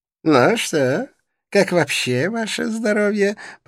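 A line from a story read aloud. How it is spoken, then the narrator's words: Sweet voice. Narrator (Russian): произнес заблудшийся сладким голосом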